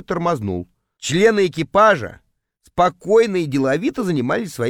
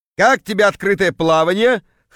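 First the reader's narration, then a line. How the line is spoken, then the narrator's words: Chuckling. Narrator (Russian): хохотнул появившийся Кравчук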